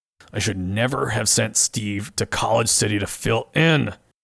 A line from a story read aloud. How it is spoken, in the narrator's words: mutters to himself